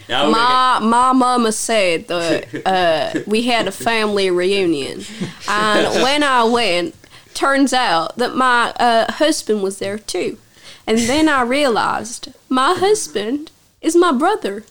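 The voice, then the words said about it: Put-on Southern American accent. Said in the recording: “I can do a really good Southern accent.”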